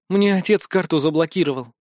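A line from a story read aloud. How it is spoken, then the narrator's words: Sigh. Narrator (Russian): вздохнула Вика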